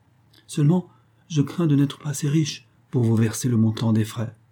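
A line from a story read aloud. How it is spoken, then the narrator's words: Timid addition. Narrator (French): elle ajouta timidement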